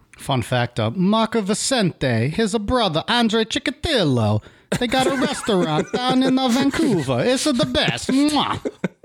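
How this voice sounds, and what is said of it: Put-on Italian accent drifting Kazakhstani. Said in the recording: “I feel like that was slightly getting to Borat. ... I started trailing into my Kazakhstani accent ... Oh, was that supposed to be Italian?”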